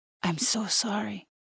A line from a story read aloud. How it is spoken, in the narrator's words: says quietly